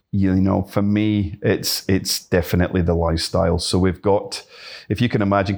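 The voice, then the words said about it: Scottish Glasgow accent. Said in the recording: “your accent doesn't quite sound English either ... originally from Glasgow”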